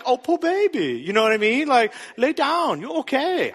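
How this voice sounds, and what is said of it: Put-on unidentified accent. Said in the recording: “I don't know what this accent is”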